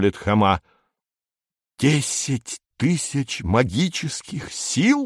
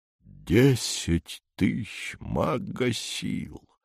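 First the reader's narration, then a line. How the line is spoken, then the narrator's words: Stunned muttering. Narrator (Russian): бормочет Федор Семенович, ошеломленно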